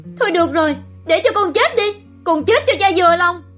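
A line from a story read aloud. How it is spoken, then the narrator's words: Desperate shout. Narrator (Vietnamese): chịu hết nổi, nó hét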